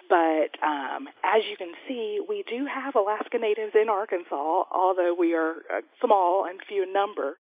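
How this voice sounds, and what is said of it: Arkansas Southern US accent. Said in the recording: “If it's not already clear from her accent, ... grew up in Arkansas.”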